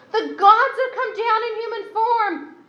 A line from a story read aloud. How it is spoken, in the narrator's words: the crowd shouted in the Lycaonian language